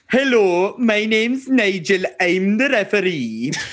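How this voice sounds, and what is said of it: Impression that sounds Indian-accented. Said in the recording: “a Nigel Owens impersonation ... That's pretty good, actually ... I don't know why he's Indian all of a sudden”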